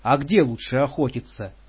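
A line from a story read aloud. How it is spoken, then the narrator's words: Plain. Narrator (Russian): спросила Патрушева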